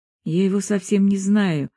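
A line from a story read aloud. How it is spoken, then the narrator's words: Sad reply. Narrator (Russian): ответила она грустно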